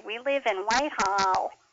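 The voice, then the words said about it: Wide, nasal upstate New York accent. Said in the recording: “when you get quite far upstate, you get up into the Whitehall, Lake George area, they have a very wide, almost nasal sound”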